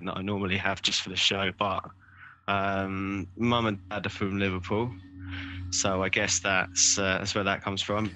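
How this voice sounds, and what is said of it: Soft southern English accent. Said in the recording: “You sound like a soft southerner to me, mate.”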